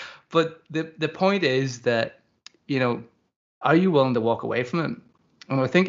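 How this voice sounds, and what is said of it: Usual voice. Nothing is said of it.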